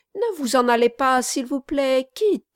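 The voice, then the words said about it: Sweet, honeyed tone. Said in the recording (French): “l'appela d'un accent doucereux”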